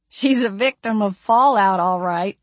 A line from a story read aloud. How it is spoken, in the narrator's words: giggled